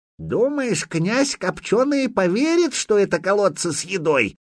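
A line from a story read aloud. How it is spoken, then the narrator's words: Creaky old man's voice. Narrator (Russian): проскрипел какой-то незнакомый Духареву дедок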